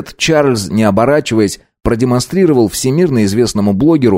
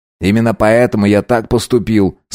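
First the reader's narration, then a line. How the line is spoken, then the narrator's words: Calm reply. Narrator (Russian): спокойно ответил Фрейзер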